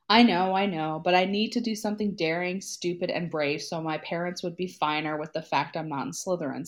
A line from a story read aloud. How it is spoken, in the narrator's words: Sirius sighed